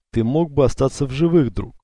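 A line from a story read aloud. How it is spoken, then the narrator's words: Sighing. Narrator (Russian): вздохнул Альтаир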